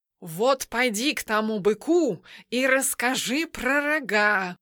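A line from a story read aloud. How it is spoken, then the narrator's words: Hissing. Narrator (Russian): прошипел кот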